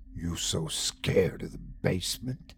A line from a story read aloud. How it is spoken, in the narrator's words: he hissed